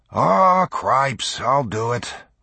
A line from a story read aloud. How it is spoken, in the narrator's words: growled Seth Wilson, a farmer from Woodson County